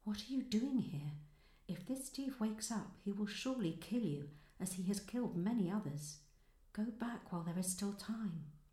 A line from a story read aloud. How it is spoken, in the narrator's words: the girl whispered